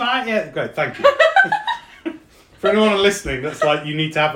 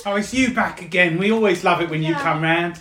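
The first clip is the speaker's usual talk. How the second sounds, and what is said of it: East End London old crone voice. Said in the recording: “Cassandra's accent ... Like an old crone? ... East End, isn't it?”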